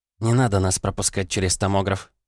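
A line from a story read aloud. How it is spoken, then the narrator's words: Gloomy objection. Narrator (Russian): мрачно возразила Жанна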